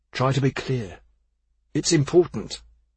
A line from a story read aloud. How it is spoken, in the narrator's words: Modig said, more sharply than usual